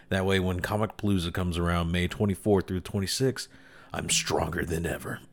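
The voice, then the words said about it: Slightly raspy voice. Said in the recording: “my voice is a little bit raspy. I gotta like clear my throat a little bit more.”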